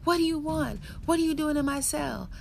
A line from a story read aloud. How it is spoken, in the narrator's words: screamed